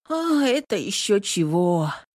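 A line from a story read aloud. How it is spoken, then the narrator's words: Drawled. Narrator (Russian): протянул Богдашка и вздохнул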